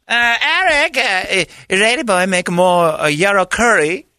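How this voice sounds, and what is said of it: Put-on Thai accent. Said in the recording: “That is a very accurate Thai accent ... I'll work harder on my Thai accent”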